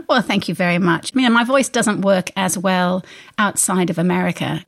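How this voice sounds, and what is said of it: Put-on English accent. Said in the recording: “I'm actually from Arkansas, but I perfected this English accent.”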